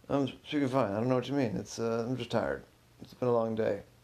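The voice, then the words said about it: Mumbling, unclear speech. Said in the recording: “Why are you speaking like that? ... you don't normally mumble. Why are you mumbling?”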